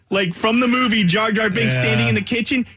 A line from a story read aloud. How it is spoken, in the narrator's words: she screamed so loud